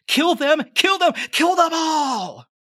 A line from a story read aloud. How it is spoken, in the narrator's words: the maiden just shrieks